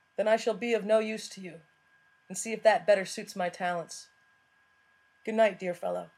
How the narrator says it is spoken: Watson said smoothly

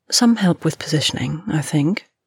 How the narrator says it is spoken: she said smoothly

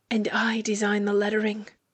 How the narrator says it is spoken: brags, much closer, a smug whisper from over Bonnet's shoulder

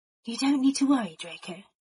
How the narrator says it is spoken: Remus told him gently

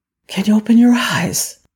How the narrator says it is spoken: tenderly whispered

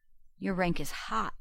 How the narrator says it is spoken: Rodney murmured

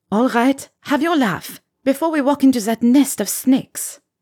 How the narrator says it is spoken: she said sharply

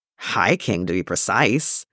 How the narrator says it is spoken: Tim muttered to their brother

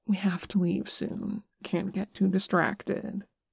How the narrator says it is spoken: Nick said softly

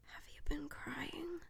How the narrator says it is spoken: Mike whispers

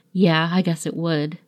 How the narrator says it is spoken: Ed chuckled

